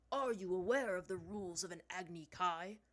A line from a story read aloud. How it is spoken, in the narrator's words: Zhang Zhang spoke to her coldly